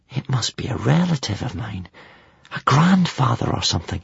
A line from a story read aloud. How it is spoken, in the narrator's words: whispered Hiccup